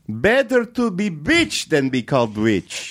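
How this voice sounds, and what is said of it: Put-on accent. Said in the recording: “That's a good accent.”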